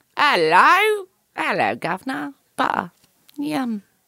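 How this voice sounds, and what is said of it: Put-on British-style accent. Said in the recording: “Sting doesn't even sound like that. Neither does Shaggy... I'm just going to use that accent.”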